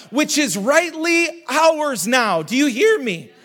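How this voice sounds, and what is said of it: Voice cracks while preaching. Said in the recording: “My voice cracked.”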